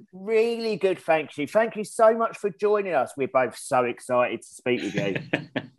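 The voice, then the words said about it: English accent. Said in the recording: “it's really lovely and beautiful to hear an English accent ... England accent, how fabulous”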